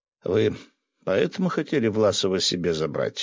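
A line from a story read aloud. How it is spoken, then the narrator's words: Calm question. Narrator (Russian): спокойным голосом спросил я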